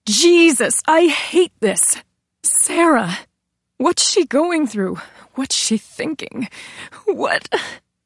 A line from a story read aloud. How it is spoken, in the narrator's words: Her voice choked